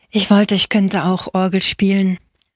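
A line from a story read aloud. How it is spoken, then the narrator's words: Sighing. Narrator (German): seufzte Angelo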